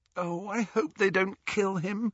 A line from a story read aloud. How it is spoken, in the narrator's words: groaned Hermione